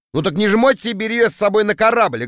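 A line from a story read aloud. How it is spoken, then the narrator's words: Snapping. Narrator (Russian): огрызнулся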